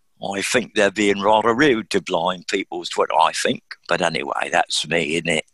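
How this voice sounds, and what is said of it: Puts on a Cockney accent. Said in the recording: “Was that your best Cockney or what? ... it was my best one for the moment anyway”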